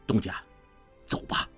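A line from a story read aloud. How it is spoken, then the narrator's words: Low, urgent. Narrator (Chinese): 潘维言低声急道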